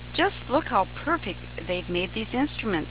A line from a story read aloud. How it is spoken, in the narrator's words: Sally purred